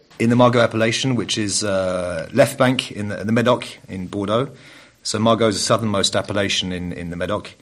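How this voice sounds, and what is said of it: English accent. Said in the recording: “you've got the English accent.”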